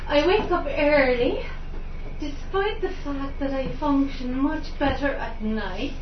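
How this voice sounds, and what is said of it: Put-on Italian accent. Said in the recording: “I'm going to try and do a kind of Italian accent”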